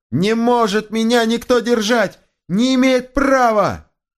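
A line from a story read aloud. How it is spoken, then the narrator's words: Shouting, growing ever louder. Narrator (Russian): кричал он, все больше и больше возвышая голос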